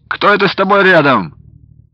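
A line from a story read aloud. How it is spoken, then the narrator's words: Chuckling cheerful question. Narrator (Russian): Весело посмеиваясь, спросил Платов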